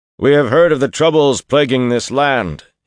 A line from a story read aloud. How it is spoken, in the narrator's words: he bellowed at the men atop the wall, managing formality at the top of his lungs